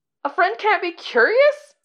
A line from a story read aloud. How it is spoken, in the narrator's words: Nie Huaizong cries